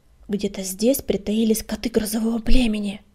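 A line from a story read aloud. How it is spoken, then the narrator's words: Hissed. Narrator (Russian): прошипела она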